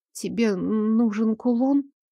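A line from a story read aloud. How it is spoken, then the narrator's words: Trembling voice. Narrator (Russian): Дрожащим голосом высказала я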